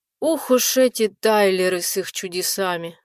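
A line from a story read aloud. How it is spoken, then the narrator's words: Sighing. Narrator (Russian): вздохнул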